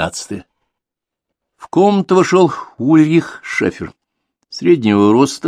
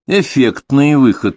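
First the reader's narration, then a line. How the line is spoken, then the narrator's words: Gloomy. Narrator (Russian): мрачно произнес Дронго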